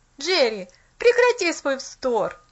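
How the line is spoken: Annoyed exclamation. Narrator (Russian): С досадой воскликнул он

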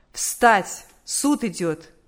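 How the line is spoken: Commanding official voice. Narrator (Russian): судебный полицейский повелительным голосом сказал

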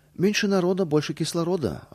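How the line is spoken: Plain. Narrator (Russian): ответил я

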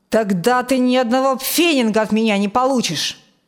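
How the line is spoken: Angry father. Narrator (Russian): зло ответил отец

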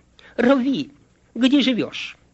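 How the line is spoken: Confused mumbling. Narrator (Russian): Оба последователя растерялись и пролепетали

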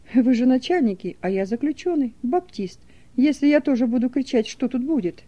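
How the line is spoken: Calm question. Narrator (Russian): Фисуненко спокойно спросил

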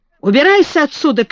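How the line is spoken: Shouted. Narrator (Russian): крикнул он

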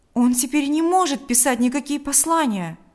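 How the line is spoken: Exclaiming. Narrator (Russian): воскликнул Павел

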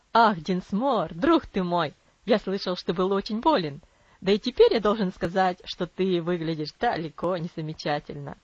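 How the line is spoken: Cheerful hearty exclamation. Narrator (Russian): воскликнул Травилла веселым сердечным тоном

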